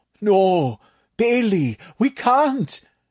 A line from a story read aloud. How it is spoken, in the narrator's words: Tatak moaned